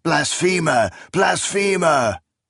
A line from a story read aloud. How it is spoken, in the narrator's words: fanatics shrieking